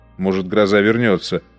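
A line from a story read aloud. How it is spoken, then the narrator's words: Grumbled. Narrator (Russian): проворчал Розен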